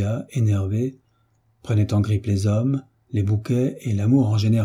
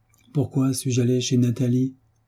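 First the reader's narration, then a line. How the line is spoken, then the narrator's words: Moaning. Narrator (French): gémissait-elle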